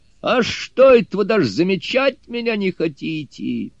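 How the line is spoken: Sudden loud shout. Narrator (Russian): Суню-кун вдруг громко крикнул

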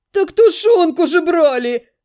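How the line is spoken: Hungry groan. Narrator (Russian): простонал кто-то из ребят, явно голодный

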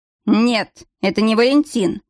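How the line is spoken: Irritated reply. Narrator (Russian): раздраженно ответил постоялец

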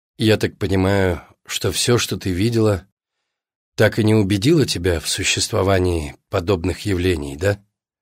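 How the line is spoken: Sighing. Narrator (Russian): Алина вздохнула

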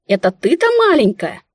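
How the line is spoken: Exclaiming. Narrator (Russian): воскликнула я

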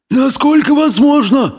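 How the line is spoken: Whimper. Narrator (Russian): проскулил

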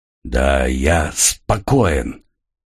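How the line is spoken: Hoarse rasp. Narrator (Russian): прохрипел Росас

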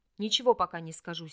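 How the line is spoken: Angry, curt. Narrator (Russian): сердито бросил Лосах

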